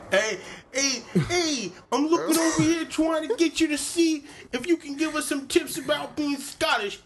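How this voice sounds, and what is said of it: Put-on New York accent. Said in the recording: “Ask her in New York accent.”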